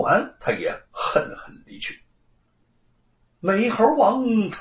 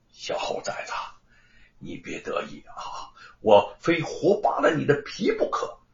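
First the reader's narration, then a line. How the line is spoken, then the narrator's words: Through gritted teeth. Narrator (Chinese): 罗万金咬牙切齿的说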